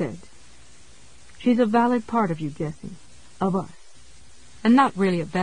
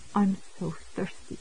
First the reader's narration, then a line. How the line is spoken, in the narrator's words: she said mournfully